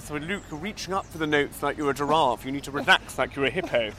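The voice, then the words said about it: Impression of a singing teacher. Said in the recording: “I did impressions of my singing teacher, who was called Roth Campbell, and he spoke like this ... that is a very good impression.”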